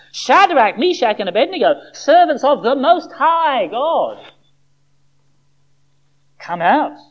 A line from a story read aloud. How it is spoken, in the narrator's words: shouts